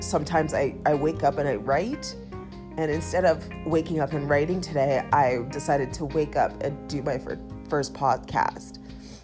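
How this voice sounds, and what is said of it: Hoarse, just-woke-up voice. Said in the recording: “my voice is kind of hoarse just because I just woke up”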